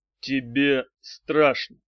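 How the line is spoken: Calm. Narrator (Russian): спокойно проговорил Арий, обращаясь к Самцову

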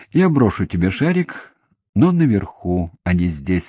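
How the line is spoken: Plain. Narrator (Russian): сказал он

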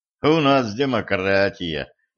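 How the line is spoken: Sighing intern. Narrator (Russian): вздохнул стажер

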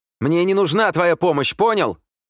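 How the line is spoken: Shouted after him. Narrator (Russian): крикнула она ему вслед

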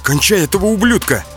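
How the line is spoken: Shout. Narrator (Russian): крикнул Марат

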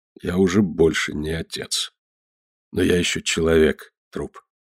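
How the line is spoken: Forced calm. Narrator (Russian): Мне стоило тяжелого труда сказать спокойно

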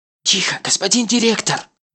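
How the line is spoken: Whispered exclamation. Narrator (Russian): шепотом восклицает Сун Йон

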